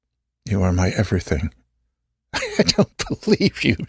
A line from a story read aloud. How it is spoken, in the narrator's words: she laughs